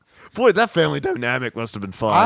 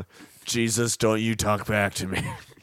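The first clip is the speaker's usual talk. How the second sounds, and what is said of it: Scolding mom voice. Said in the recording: “mom voice ... That's what I was going for.”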